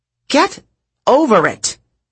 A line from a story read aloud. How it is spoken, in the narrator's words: Drew snapped at the crowd